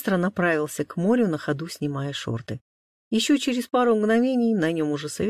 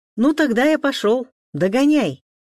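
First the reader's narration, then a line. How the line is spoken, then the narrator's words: Shout. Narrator (Russian): крикнул Алекс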